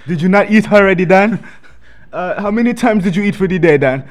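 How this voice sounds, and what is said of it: Poor put-on Jamaican accent. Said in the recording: “a Jamaican accent ... That shit was awful”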